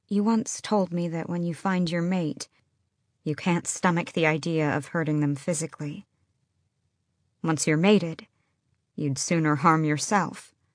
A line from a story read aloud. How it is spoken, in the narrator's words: she said quietly